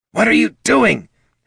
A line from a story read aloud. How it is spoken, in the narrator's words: hissed the kobold